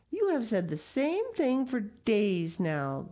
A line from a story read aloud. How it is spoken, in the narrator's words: grumbled Peter